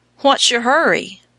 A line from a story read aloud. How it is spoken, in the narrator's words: cried